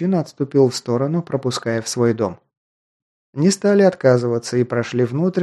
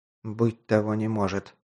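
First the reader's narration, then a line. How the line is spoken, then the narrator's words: Mutter under breath. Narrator (Russian): пробормотал себе под нос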